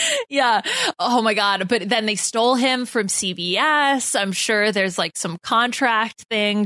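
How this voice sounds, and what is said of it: Usual voice. Nothing is said of it.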